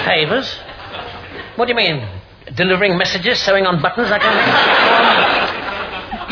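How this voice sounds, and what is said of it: Posh English accent. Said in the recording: “posh accent”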